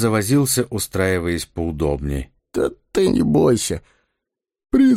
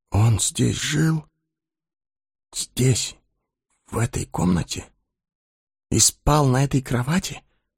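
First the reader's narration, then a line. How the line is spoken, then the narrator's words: Whisper through numb lips. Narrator (Russian): Прошептал Эггерт непослушными губами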